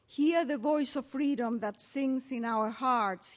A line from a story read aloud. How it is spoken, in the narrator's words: he shouted